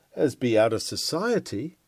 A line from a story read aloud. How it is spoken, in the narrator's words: cries one